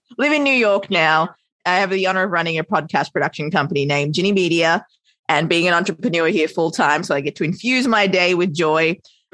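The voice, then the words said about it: Australian accent. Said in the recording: “Australian raised, hence my adorable accent.”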